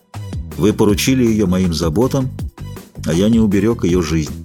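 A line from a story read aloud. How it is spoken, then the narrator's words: Gloomy. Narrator (Russian): мрачно проговорил Фельтон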